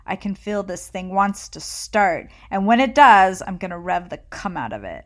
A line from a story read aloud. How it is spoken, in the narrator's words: snarls